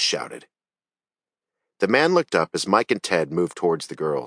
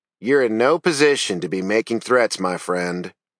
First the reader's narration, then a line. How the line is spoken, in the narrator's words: Sarge said calmly